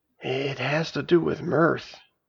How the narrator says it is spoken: I finally whispered

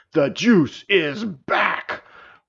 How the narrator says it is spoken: roared the dragon

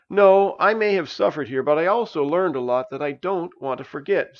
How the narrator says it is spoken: said Kurz

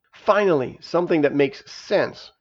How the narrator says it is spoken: grumbled Narayana

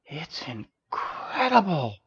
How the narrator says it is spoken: Princess sighed

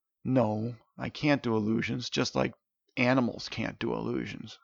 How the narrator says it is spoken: sighed Steven

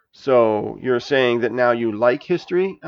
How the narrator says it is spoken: I asked

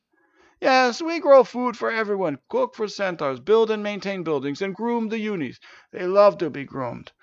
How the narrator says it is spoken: answered Sarvis with a groan

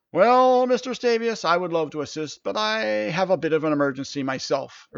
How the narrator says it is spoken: Urtish said

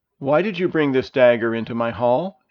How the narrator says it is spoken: asked the king

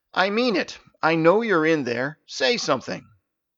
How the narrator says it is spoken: raised his voice to say

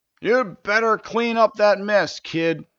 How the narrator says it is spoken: a shopkeeper shouted from a nearby doorway

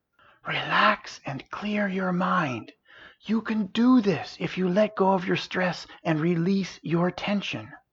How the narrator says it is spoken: Versera's voice softly whisper in his ear

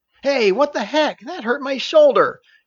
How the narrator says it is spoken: yelped Elisa

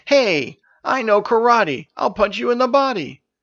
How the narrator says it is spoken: shouted

